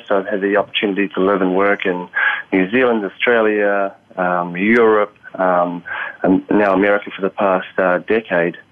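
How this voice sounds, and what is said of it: Non-American accent. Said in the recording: “as you can tell from the accent, not originally from the U.S.”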